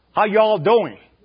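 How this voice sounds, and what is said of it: Bad put-on southern accent. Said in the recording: “I do a really bad southern accent.”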